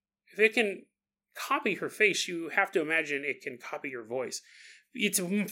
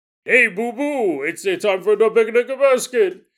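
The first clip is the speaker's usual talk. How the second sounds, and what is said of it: Imitates cartoon bear voice, not great. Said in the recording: “vocal impersonator ... Obviously, Yogi Bear was not in the studio ... my impersonations aren't the best, okay? They're not fantastic.”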